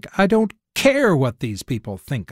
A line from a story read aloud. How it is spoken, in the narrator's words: I snapped